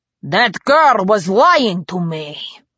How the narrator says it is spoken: he growled

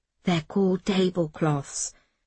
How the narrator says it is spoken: Miss Smith whispered back

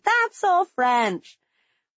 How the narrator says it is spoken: yelling

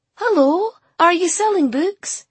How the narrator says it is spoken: she said cheerfully

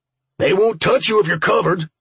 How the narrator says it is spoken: the boss yelled from behind us

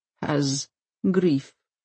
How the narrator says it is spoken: he says, in a low voice towards the worse

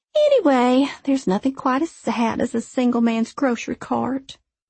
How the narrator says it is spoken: She finished with a long sigh and said

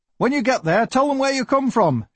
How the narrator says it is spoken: shouted

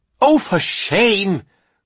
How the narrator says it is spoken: cried Miss Joyce

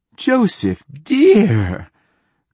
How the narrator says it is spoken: cried Wingreen Fief

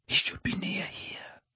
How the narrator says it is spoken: whispered Harry

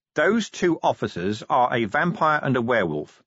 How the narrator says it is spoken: he said, still in the same level voice

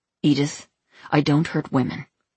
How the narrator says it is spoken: George Graham said, speaking quickly

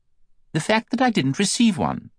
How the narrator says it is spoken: asks Elizabeth sharply

